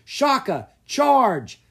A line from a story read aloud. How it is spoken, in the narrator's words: Caspar yelled